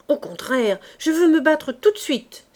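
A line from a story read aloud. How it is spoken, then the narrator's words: Grim exclamation. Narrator (French): s'écria d'un air sombre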